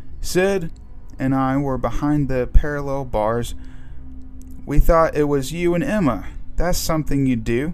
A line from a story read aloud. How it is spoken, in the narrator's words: Charlie said